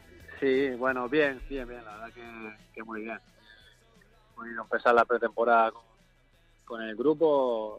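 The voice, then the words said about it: Canary Islands Spanish accent. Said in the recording (Spanish): “tiene acento canario”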